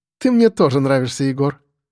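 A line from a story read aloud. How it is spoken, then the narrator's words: Laughing. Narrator (Russian): рассмеялась девушка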